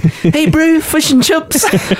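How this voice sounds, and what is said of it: Put-on New Zealand accent. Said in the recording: “Kiwi accent”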